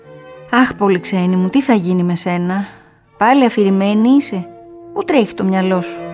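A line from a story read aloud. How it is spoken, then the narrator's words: Condescending smiling teacher. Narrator (Greek): η δασκάλα της χαμογελούσε συγκαταβατικά, λέγοντας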